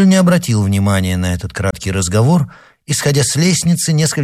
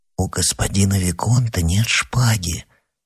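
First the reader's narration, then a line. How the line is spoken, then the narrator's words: Hesitant whisper. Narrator (Russian): нерешительно прошептал Оливен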